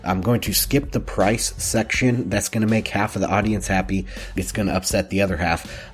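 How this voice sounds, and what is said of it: Sick-sounding voice. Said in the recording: “You can probably tell by my voice I'm feeling a little bit under the weather”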